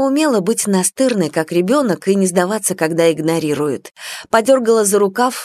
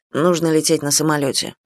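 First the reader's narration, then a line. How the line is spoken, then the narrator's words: Gruff mumble. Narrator (Russian): буркнули ей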